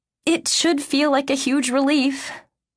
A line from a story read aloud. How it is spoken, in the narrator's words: I breathe out on a long sigh